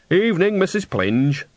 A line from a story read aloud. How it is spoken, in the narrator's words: said Nanny cheerfully